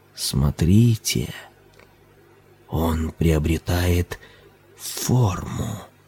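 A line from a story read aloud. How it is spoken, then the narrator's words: Whispering. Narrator (Russian): шептал Ларган Сахиб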